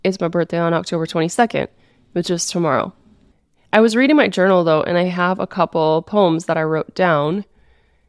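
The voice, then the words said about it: Voice not fully recovered. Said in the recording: “my voice is still not back”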